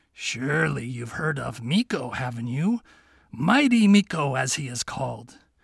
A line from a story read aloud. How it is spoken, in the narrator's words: he murmured in his ear